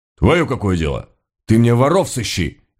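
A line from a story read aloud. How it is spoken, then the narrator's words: Harsh, surly. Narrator (Russian): резко набычился купец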